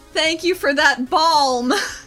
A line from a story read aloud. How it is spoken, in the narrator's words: shouts after him